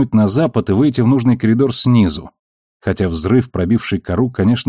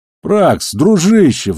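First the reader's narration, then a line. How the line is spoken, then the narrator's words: Pleading. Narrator (Russian): взмолился Амос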